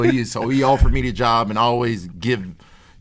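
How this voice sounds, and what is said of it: Usual voice. Nothing is said of it.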